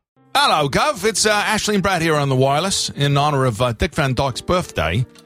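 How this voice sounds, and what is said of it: Put-on Cockney accent. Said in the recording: “I thought it would do me a little Cockney accent there, eh?”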